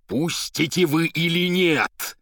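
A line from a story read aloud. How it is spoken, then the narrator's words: Terrible shout. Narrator (Russian): страшным голосом крикнул поэт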